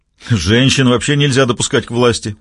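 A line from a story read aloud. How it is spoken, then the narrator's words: Deep belly laugh. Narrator (Russian): утробно захохотал Дуглас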